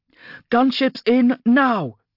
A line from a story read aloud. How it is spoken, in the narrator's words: she shouted